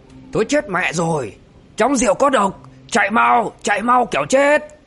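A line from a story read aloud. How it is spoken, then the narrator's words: Loud alarmed shout. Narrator (Vietnamese): Linh Miêu Tẩu quát vang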